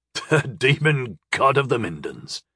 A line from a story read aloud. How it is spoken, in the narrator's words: he chuckled wryly